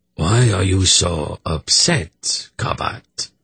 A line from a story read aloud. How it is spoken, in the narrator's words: Agachak asked with malicious amusement in his hollow voice